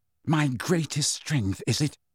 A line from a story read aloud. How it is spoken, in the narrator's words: said Harry, his voice shaking